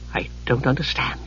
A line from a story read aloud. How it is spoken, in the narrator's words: Palin whispered, anguished